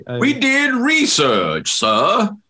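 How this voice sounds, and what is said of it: J. Edgar impression, Southern accent. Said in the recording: “doing the voice? ... I didn't think J. Edgar had the southern accent.”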